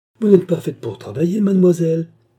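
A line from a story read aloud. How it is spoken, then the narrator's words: Old servant exclaiming briskly. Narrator (French): s'écria la vieille servante avec vivacité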